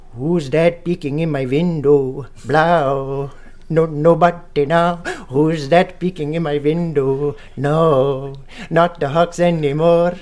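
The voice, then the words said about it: Sung imitation of another person's voice. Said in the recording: “my wife's dad is from Pakistan ... I'm going to do my impression of my father-in-law singing this song”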